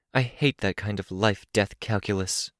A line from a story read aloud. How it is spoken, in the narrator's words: Sveta murmured, not loud enough to be heard by Cradle